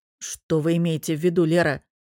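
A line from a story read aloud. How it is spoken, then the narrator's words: Man's growl. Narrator (Russian): мужчина прорычал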